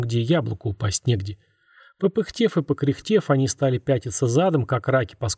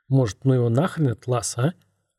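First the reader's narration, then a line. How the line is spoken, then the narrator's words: Tired. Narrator (Russian): устало проговорил Антон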